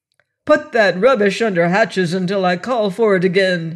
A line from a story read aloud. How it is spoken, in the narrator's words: he roared